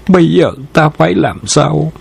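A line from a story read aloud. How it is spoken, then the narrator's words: Muttering to oneself. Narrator (Vietnamese): lẩm bẩm nói một mình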